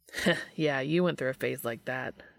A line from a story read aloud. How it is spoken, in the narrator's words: chuckled Dean